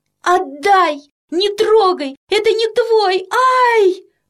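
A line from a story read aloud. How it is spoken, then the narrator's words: Sudden plaintive cry. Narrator (Russian): вдруг жалобно закричала Тома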